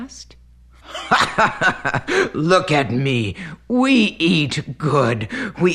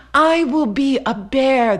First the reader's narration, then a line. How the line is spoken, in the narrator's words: the boy cried out